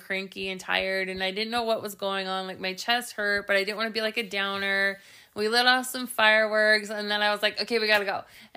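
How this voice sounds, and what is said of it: Voice sounds congested from cold. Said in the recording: “I have a cold”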